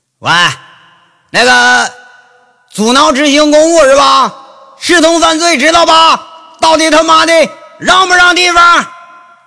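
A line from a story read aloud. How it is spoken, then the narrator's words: Cursing. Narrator (Chinese): 骂上人了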